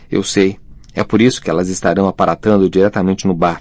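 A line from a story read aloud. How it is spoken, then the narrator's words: Plain. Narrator (Portuguese): respondeu Neville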